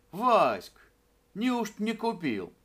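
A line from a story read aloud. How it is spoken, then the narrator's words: Shouted from a distance. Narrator (Russian): Мама Евлампина стояла у ворот и еще издали крикнула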